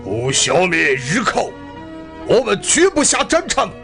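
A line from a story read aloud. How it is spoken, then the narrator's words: Solemn vow. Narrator (Chinese): 塔斯哈对着废墟发誓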